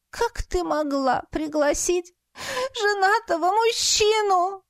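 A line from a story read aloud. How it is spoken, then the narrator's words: Sobbing tearfully. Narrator (Russian): Слезы вновь полились, и я зарыдала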